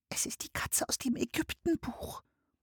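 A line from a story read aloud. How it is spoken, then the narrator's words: Whisper. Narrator (German): flüsterte Anne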